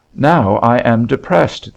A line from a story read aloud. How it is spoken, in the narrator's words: the Kootenai exclaimed